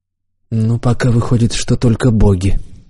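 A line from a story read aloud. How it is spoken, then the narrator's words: Quiet. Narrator (Russian): тихо сказал Шойнц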